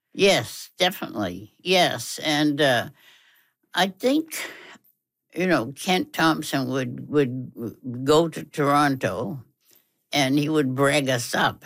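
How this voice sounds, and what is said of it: American Massachusetts accent. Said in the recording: “you know by my accent ... that I'm an American from Massachusetts”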